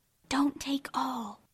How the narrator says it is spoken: whispered her neighbor, a young lady of great presence of mind

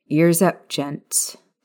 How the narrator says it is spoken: Maya narrowed her gaze at Vernon and Petunia Dursley and muttered

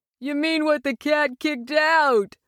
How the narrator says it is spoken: would add as they roared with laughter

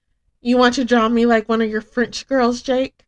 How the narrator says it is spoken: Risa jokingly blurted out

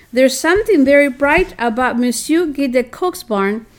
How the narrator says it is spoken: she exclaimed

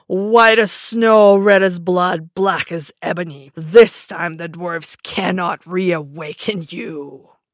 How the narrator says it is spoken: looked at her with glittering eyes and laughed bitterly, exclaiming

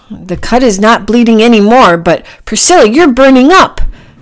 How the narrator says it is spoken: Packy shouted

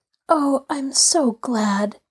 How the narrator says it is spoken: Grace murmured

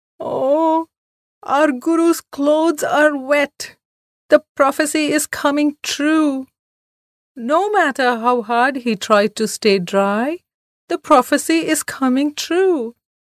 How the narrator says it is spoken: wailed Pedai loudly

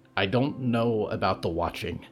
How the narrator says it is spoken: Danielle said

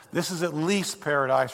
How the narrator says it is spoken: replied the angel

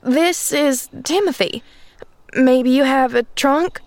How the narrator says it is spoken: she stammered

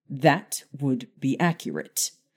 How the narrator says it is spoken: Harry replied sharply

